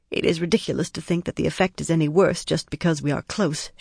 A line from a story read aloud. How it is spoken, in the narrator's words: she muttered